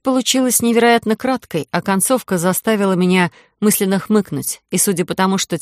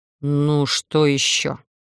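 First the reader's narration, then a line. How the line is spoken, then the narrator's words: Irritated grumble. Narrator (Russian): раздраженно проворчал Идан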